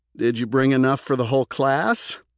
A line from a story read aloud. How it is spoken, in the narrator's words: Doug asked with a chuckle